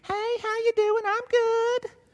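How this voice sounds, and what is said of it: Southern drawl. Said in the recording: “That was my southern drawl coming out for you. Southeast Alabama”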